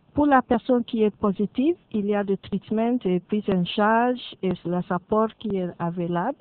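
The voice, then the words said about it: Slight English accent in French. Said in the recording (French): “vous avez un petit accent anglais”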